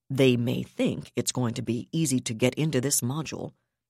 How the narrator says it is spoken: he said

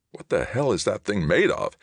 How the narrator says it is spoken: Halloran asked tightly

